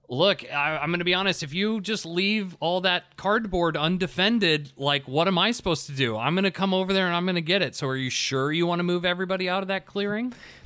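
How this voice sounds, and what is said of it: Clear, condescending teaching voice. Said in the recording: “This tone we've taken sounds so condescending ... we're trying to be in a teaching voice ... we're trying to speak very clearly and concisely”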